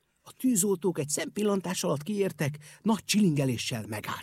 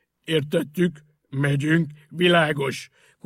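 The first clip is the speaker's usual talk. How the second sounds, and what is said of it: Hoarse boozy voice, shouted. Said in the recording (Hungarian): “Kurjantotta a borizű hang”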